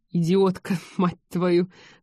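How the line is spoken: Snorting. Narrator (Russian): фыркнула Ольга

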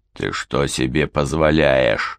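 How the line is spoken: Growling. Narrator (Russian): рычал Фрэнк

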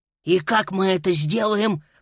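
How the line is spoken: Hissed. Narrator (Russian): прошипел Боб

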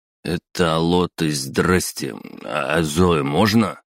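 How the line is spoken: Forced out, stumbling over words. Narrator (Russian): выдавил Саня, путаясь в словах

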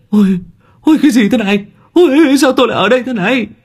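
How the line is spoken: Startled shrieking men. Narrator (Vietnamese): mấy ông rú lên

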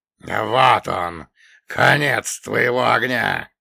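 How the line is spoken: Triumphant echoing giant roar. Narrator (Russian): победно проревел великан, и его голос разнесся эхом по всему болоту

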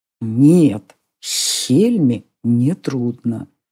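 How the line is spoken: Whispered reply. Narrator (Russian): шепотом отозвался мальчик-дракон

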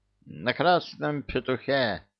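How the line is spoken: Sleepy clucking. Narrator (Russian): сонно прокудахтал воевода

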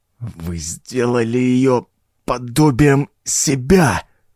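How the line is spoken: Strained, half-paralyzed lips. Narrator (Russian): С трудом шевеля полупарализованными губами выдавил я

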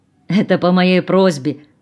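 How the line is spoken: Laughing. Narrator (Russian): рассмеялся Юрий

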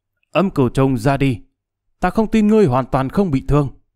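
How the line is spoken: Raised voice. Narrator (Vietnamese): cao giọng nói

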